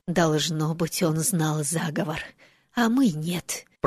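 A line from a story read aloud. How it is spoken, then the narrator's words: Whisper. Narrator (Russian): прошептала МакГонагал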